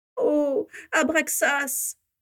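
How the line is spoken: Moaned. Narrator (French): gémit Ursula Crabbe

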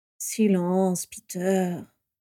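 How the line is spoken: Weary sigh. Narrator (French): soupira Sirius avec lassitude

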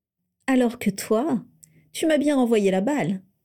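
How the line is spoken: Laughing. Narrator (French): poursuivit Lucius en riant

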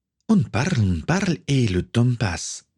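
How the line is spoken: Plain. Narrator (French): dit-elle

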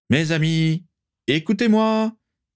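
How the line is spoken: Slurred shout. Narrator (French): cria-t-il d'une voix mal articulée

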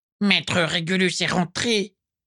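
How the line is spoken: High, grating voice. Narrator (French): constata-t-il d'une voix aiguë et grinçante

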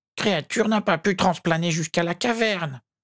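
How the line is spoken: Squeaking elf. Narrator (French): couina l'elfe

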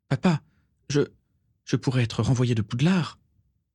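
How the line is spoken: Weak protest. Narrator (French): protesta faiblement Régulus

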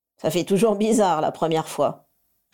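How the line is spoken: Bartender sniggering. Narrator (French): ricana le barman

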